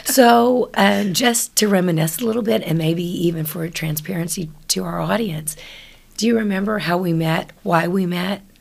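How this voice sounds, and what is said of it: Raspy voice. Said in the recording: “My voice, I'm a bit raspy”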